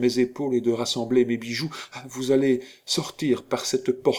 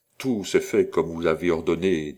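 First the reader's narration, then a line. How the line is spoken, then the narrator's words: Low voice. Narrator (French): dit le vicomte Annibal à voix basse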